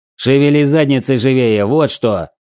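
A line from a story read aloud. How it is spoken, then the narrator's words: Barked. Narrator (Russian): рявкнул я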